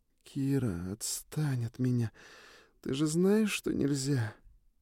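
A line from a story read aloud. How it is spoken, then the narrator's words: Blissful moan. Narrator (Russian): Блаженно простонала Сьюн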